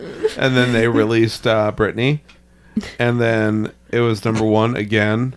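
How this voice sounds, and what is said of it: Usual voice. Nothing is said of it.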